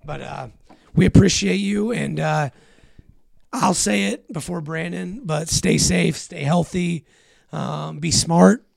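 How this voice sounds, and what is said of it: Raspy, hoarse voice. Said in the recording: “you have to listen to my raspy-ass voice. I'm sorry for that. Been popping halls, and it's not working.”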